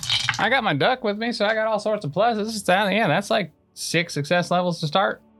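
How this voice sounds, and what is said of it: Slight Southern twang. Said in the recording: “You got like real southern right there. ... A little twang.”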